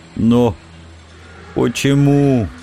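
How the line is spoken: Barely breathed out. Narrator (Russian): едва выдохнул он

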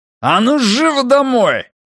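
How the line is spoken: Roar. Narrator (Russian): взревел он

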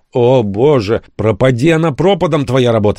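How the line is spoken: Shouting. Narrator (Russian): закричал я

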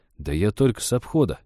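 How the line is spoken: Confused mutter. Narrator (Russian): растерянно пробормотал лесник

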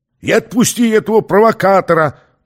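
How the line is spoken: Trance-like shouted order. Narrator (Russian): Будто под гипнозом, повторяя чужой приказ, выкрикнул тот под конец

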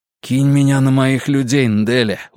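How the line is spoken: Breathless exhale. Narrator (Russian): выдохнул Вука

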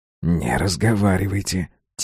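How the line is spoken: Quiet. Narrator (Russian): тихо сказал он

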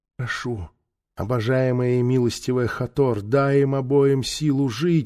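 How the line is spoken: Whispered. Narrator (Russian): шептала Мирикара

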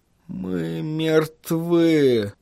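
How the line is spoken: Dejected tone. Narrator (Russian): подавленным тоном произнес Микки

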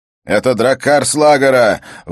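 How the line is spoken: Shouted out. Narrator (Russian): выкрикнул один из скандианцев

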